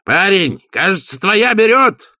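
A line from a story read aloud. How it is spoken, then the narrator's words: Shouted to distant figure. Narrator (Russian): крикнул он фигуре на помосте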